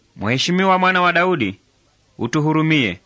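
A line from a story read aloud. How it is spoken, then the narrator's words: Shouting. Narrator (Swahili): walipaza sauti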